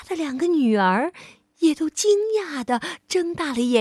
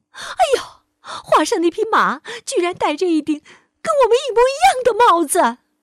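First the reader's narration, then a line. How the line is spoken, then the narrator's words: Woman shrieking. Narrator (Chinese): 达米尼夫人立刻尖叫起来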